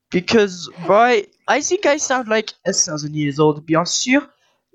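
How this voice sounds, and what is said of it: French boy character voice. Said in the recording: “I think you do sound like a 12-year-old French boy. I think it's quite accurate.”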